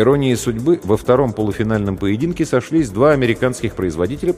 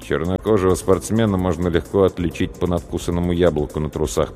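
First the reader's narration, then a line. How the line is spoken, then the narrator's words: Muttered. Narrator (Russian): пробормотал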